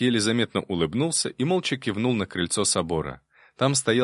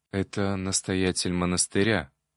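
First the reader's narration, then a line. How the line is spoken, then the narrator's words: Whispered in ear. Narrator (Russian): шепнул мне на ухо Виктор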